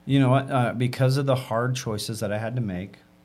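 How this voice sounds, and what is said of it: Usual voice. Nothing is said of it.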